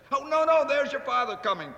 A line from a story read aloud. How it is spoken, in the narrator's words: cried the two young Cratchits